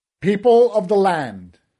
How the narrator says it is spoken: shouted

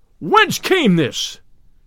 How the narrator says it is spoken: cried the sheriff in a mighty voice

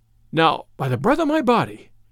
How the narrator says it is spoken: cried the other

